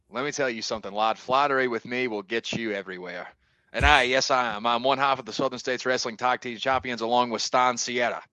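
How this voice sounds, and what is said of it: Scottish accent. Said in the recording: “where your accent is from ... So I am from Scotland ... that is where you hear my accent from. The great nation of Scotland”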